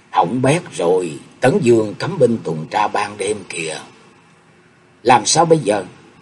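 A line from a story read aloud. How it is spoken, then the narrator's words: Worried low voice. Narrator (Vietnamese): âm thầm kêu khổ, nhỏ giọng nói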